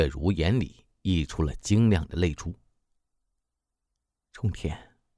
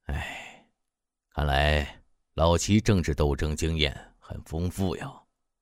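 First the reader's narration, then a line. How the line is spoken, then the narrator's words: Startled, ambiguous sigh. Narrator (Chinese): 刘冲天愕然一惊，语意不详地感叹道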